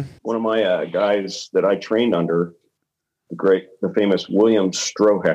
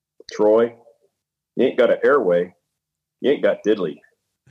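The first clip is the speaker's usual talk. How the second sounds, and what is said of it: Imitated Southern American accent. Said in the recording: “in his Southern Citadel graduate accent”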